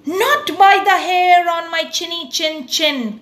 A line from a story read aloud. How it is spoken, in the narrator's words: cried Elmer